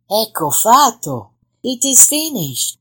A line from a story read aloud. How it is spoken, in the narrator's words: Maga Rosa said softly